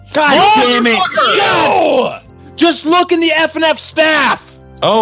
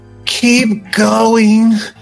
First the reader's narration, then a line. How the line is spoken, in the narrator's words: she said through gritted teeth